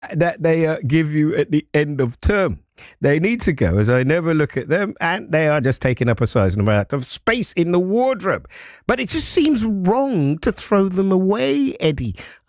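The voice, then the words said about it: Impersonation of a co-host. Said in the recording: “I'm doing my impersonation of you, by the way, Paula.”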